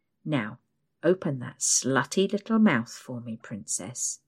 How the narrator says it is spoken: mumbles

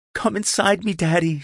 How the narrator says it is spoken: cried out

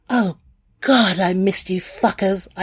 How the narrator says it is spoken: I cried

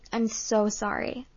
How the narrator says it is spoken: I stammered

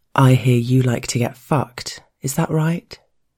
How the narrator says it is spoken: he asks

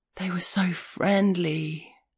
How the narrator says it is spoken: he said, in a gasp of awestruck wonder, like a man sitting at the edge of the Grand Canyon at sunset

